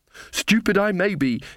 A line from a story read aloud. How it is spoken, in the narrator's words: she panted